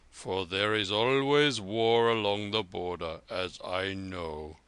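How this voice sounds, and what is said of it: Deep rumbling old man's voice. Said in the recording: “rumbled a deep voice”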